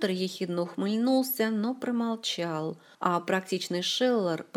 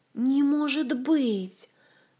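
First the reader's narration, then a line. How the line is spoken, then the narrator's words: Horrified moan. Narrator (Russian): в ужасе простонал теоретический отец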